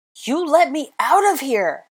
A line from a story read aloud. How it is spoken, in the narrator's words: roared